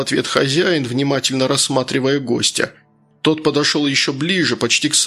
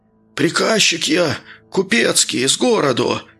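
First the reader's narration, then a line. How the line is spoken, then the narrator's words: Hoarse shouting. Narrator (Russian): прокричал незваный гость охрипшим голосом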